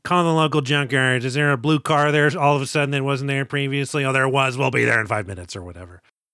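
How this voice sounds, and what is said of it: Imitates a film character's voice. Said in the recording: “my Brewster impression”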